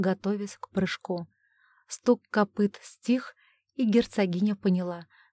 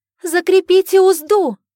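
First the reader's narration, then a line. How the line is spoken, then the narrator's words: Full-force shout. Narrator (Russian): что было мочек, закричала Джулия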